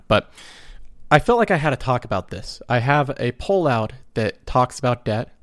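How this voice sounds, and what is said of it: Rough, congested voice. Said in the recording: “my voice sounds bad. I have a cold. I'm getting over a cold, so my voice is not great right now.”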